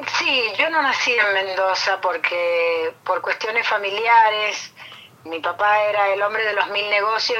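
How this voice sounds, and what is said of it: Mendoza Cuyo regional Argentine accent. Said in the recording (Spanish): “esa tonada mendocina, cuyana, aparece en primer lugar”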